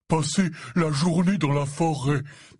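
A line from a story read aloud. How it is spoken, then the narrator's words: Breathless voice. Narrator (French): dit-il d'une voix haletante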